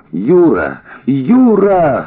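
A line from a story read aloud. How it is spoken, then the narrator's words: Shouting. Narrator (Russian): закричала она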